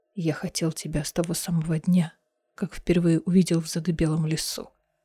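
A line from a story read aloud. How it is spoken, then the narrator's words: Hoarse rasp. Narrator (Russian): прохрипел Дорин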